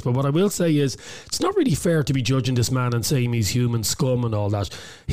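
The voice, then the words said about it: Hoarse, strained voice. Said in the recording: “he won't be speaking very much today... Laryngitis has taken over”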